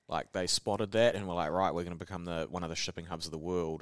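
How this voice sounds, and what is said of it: New Zealand accent. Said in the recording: “They recognise my accent straight. I'd say hello, and they'd be like, oh, Kiwi.”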